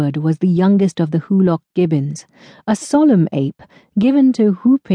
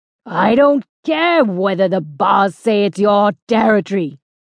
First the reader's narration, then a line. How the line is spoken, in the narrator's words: roared